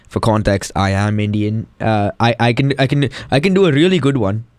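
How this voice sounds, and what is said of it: Indian accent. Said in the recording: “can I, like, switch to my Indian accent?”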